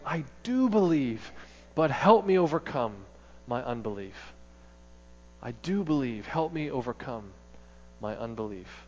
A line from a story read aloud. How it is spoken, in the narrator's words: the boy's father exclaimed